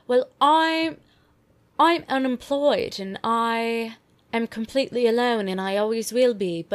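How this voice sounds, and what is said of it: Put-on British accent. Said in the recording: “I'm sorry for the accent, Brits”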